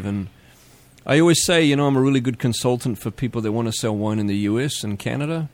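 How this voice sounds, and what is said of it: Speaks with a noticeable accent. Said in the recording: “Despite my accent, I'm a goddamn American.”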